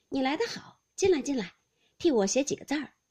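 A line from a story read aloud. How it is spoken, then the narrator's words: Laughing. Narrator (Chinese): 笑道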